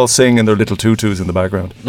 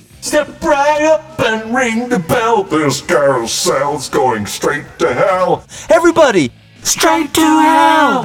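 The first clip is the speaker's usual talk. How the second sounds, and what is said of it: Sung impression of a rock song. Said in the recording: “Do an impression of it there.”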